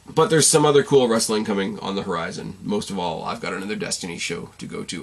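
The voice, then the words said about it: Strained, fading tired voice. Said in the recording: “I'm losing my voice. And I'm really tired.”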